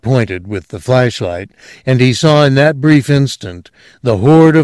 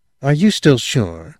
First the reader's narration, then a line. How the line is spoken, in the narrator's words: the girl said purringly